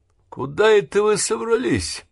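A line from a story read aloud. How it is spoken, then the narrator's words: Mocking question. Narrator (Russian): насмешливо спросил Хейс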